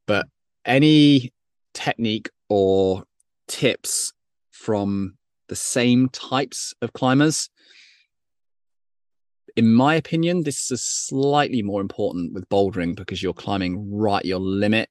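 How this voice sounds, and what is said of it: British accent. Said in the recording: “Apologies for the British accent.”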